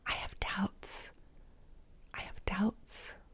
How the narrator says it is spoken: whispered

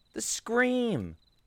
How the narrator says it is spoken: shouted

